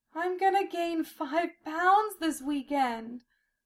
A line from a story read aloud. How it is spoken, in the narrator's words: Sylphiel moaned